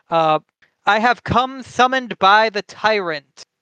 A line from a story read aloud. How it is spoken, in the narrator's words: Black called out into the silence